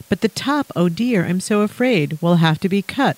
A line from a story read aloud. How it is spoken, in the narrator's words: sighed Miss Adelaide